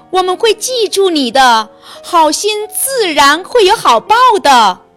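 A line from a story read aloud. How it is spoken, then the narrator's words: Ant king calling out. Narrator (Chinese): 蚁王对他叫道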